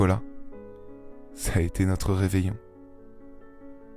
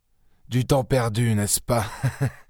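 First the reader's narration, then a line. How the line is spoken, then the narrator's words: Sneering. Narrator (French): ricana-t-il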